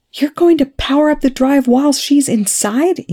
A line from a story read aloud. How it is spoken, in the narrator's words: Eli shouted